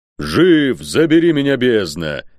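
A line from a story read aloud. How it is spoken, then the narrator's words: Roaring. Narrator (Russian): проревел тот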